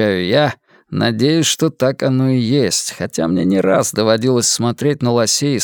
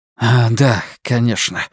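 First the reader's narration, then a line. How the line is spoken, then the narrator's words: Relieved sigh. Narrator (Russian): Ламли облегченно вздохнул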